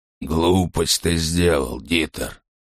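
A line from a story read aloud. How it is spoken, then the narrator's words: Grumbling. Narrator (Russian): пробурчал Крёнер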